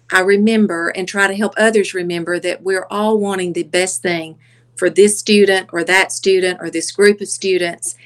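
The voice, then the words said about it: Soft Southern accent. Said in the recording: “that accent ... The soft accent. I love the Southern accent.”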